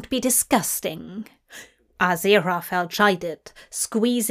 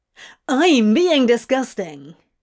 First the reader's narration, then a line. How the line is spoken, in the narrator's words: he exclaimed, incredulous